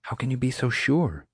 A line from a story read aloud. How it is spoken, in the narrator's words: whispered